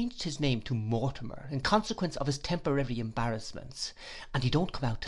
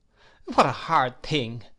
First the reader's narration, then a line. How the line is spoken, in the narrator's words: I exclaimed indignantly